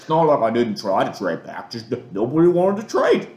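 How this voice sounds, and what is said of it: Dave Gettleman impression, thick Massachusetts accent. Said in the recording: “he's like, "Well, it's not like in his thick Massachusetts accent.”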